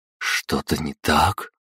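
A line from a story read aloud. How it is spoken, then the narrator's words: Quiet question. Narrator (Russian): тихо спросила Пожарская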